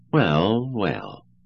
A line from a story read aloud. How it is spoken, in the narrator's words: replied Cutie soothingly